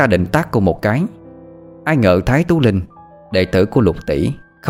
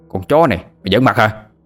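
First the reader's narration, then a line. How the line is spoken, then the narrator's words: Burly young man shouting. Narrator (Vietnamese): Một tên thanh niên lực lưỡng liền quát lên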